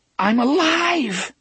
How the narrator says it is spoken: half of his mind rejoiced, screaming with relief

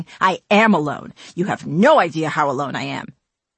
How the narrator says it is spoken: spat back without thinking

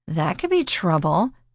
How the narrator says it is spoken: she giggled

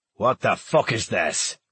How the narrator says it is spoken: Hawk roared

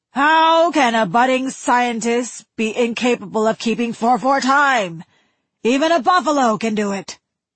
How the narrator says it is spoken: he had screamed at her

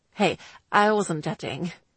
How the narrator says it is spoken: he told her hastily

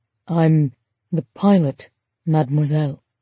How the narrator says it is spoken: he said softly in accented French

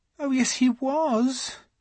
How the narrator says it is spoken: she said miserably

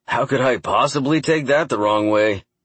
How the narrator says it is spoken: He said in a very sharp tone, wholly at odds with his forced laughter

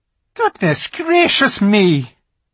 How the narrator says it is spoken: exclaimed the fawn

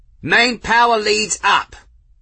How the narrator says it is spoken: someone shouted

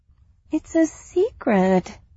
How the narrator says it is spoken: he whined

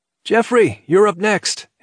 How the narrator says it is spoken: he called out

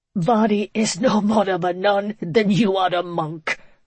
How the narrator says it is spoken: Father Lanelly managed to get out between gasps for breath

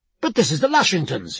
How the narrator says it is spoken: he cried

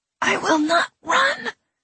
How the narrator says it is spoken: she said, her voice thin and raspy through the grip of his fingers

